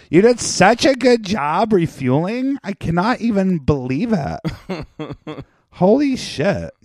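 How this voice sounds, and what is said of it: Spoiled valley-girl character voice. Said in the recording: “Spoiled white girl voice.”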